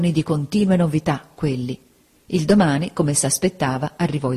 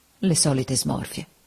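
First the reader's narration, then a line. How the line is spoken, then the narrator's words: Quietly, almost to herself. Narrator (Italian): piano, quasi tra sé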